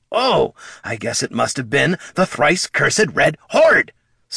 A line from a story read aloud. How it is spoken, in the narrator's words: snapped Bert